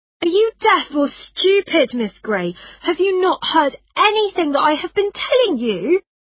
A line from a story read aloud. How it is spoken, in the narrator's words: she cried